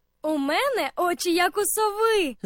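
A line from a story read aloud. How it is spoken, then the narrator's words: Laughing from treetop. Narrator (Ukrainian): засміялася Аня з верхівки дерева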